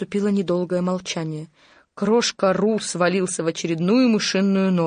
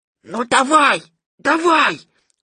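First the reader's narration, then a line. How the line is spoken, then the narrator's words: Loud muffled hiss. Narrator (Russian): громко прошипел кролик, прикрывая рот лапкой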